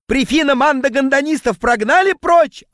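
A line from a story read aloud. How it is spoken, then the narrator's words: Yelling. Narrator (Russian): орал он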